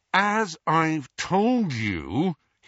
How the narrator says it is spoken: he said through gritted teeth

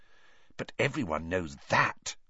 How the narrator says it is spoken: said Hermione in a loud whisper

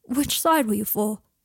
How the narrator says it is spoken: gasped

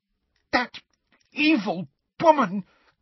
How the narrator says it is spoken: gasped Hermione, who seemed to be having difficulty talking due to rage

